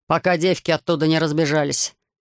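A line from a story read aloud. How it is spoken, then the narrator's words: Sarcastic mutter. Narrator (Russian): саркастически пробурчал полковник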